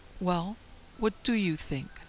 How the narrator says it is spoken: mother asked sharply

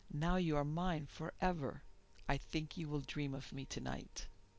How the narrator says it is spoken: she said very quietly

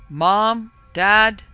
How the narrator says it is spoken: He yelled loudly

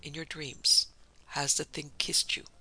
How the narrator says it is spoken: In a low voice he asked

